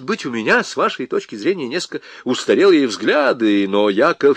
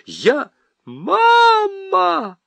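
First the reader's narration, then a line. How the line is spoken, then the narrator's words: Wailing in strange voice. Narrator (Russian): Не своим голосом завопила Нюра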